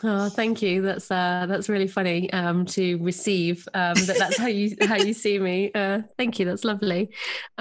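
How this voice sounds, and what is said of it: English accent. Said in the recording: “you've got a beautiful English accent”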